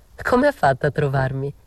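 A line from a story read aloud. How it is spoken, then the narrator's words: Laughing. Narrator (Italian): gli dissi ridendo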